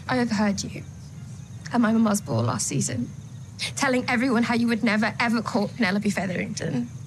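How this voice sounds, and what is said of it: English accent, shaky near-tearful voice. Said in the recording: “you've got to kind of shake your voice a small bit ... always just on the precipice of tears ... Good English accent.”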